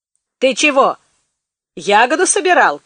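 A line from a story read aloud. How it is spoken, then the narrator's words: Shout. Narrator (Russian): крикнул Маклак Махиму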